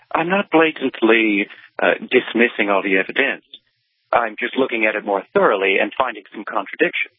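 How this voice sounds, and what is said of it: Transatlantic accent. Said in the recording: “his transatlantic accent makes him sound that much smarter”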